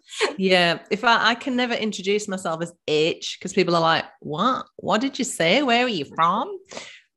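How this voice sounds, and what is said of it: Northeast England accent. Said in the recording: “that's why she has that kind of accent ... I'm from the northeast of England, which is why I've got this very strange accent”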